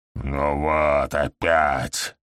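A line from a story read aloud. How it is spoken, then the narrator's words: Grumbling. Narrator (Russian): проворчал ГМ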